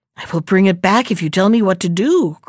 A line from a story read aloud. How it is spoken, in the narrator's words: cried the little fish